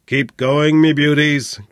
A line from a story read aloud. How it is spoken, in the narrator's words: growled Flynn